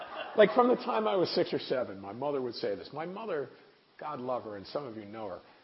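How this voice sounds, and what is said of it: Usual voice. Nothing is said of it.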